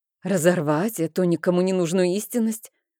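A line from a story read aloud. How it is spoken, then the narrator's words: Irritated reply. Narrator (Russian): раздраженно ответила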